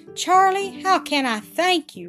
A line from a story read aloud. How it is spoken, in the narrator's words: Rupert exclaimed with emotion